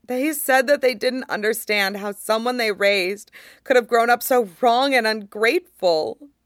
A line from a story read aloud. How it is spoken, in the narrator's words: Luo Jiahui sobs